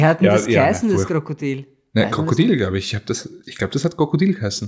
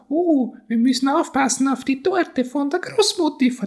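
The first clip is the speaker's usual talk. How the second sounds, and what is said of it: Kasperl puppet character voice. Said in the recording (German): “ich habe hab jetzt äh, also bemüht, wieder Kasperl zu klingen ... Klingt er nicht etwa so?”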